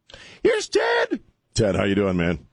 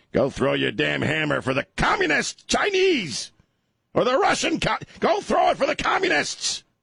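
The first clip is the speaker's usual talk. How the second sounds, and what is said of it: High-pitched, upset shouting voice. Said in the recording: “My voice gets high when I get upset.”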